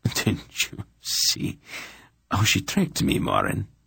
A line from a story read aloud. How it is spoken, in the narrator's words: the Emperor laughed